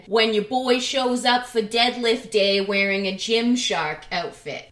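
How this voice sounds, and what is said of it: Put-on accent for a quote. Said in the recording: “I don't know why I just gave that accent”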